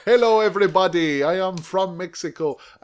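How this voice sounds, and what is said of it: Exaggerated put-on Mexican accent. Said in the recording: “an offensive accent”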